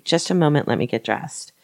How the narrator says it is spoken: Blanche calmly stated

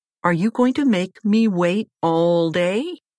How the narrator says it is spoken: Becoming annoyed, Mother Gothel yelled

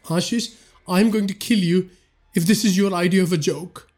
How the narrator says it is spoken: Vipul shouted

